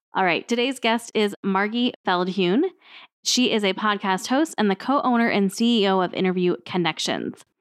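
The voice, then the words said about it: Slightly off, sick-sounding voice. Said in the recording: “my voice is a little bit off ... I have had an acute upper respiratory infection for like the past week and a half”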